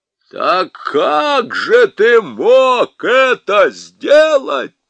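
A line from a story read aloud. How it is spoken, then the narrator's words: Thunderous question. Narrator (Russian): громовым голосом спросил Парнищев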